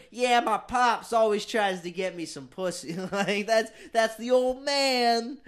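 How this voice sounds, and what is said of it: New Jersey accent. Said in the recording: “Jersey accent.”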